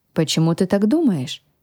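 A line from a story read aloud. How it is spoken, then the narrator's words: Plain. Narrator (Russian): спросил князь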